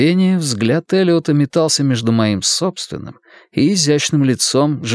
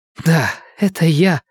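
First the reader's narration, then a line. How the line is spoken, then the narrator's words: Hoarse whisper. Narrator (Russian): хрипло прошептала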